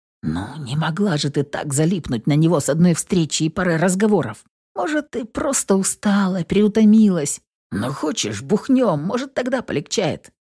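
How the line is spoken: Quiet and hopeful. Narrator (Russian): тихо с надеждой произнес

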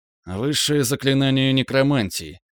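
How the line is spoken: Grim reply. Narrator (Russian): ответил мрачно

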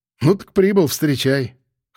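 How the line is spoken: Smirking grunt. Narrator (Russian): хмыкнул

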